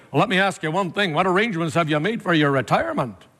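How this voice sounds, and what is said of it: Put-on Northern Irish accent, lecturing. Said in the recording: “I'm giving you Northern Irish now. So it's a little bit like the Scottish, but the Scottish is more gentle ... in Northern Ireland, when they're talking to you, you feel like you're getting a lecture.”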